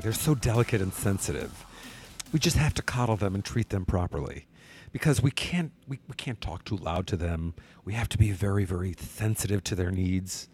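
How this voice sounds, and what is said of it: Mocking delicate millennial snowflake voice. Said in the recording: “Let me say that correctly. ... I'm trying to do my impression of, you know, millennial snowflake.”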